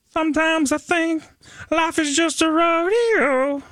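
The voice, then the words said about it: Sung imitation of a rock singer. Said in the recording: “That was my best CCR impression.”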